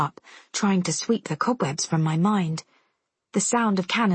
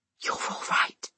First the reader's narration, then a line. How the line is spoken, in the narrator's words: he whispers against my throat